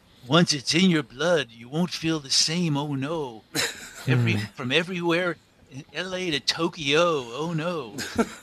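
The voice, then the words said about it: Bad impression of a singer. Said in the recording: “my bad Dylan impression”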